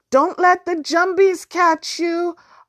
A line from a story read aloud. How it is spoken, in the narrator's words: Arjun shouted after her